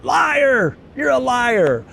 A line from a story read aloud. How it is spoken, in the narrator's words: Nate will just yell out